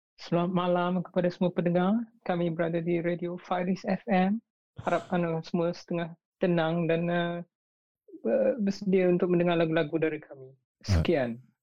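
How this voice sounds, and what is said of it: Malaysian radio announcer voice. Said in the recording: “Malaysian radio voice”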